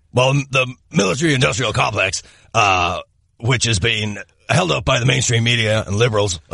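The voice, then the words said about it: Imitates another person's voice. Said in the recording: “recite the news in your Alex Jones voice again”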